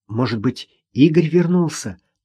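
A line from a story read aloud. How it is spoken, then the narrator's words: Whispered guess. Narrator (Russian): также шепотом предположила Маша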